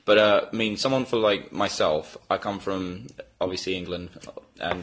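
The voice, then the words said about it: Fake English accent. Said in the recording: “This is a fake accent. I'm from Texas.”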